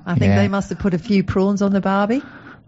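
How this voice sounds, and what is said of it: Put-on Australian accent. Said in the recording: “you're still playing with your Aussie accent”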